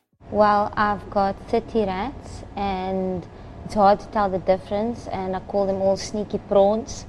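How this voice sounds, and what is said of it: Strong South African accent. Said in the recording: “It's a South African accent, and it's a very strong one, too.”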